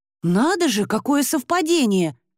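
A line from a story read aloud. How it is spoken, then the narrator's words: Exclamation. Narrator (Russian): воскликнула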